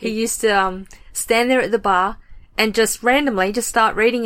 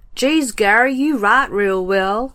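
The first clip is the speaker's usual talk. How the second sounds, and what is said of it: Put-on American accent. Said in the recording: “you can tell I'm going to America soon. I'm practicing my accent.”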